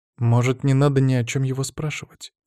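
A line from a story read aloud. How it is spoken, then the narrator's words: Quiet question. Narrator (Russian): тихо спросила Софья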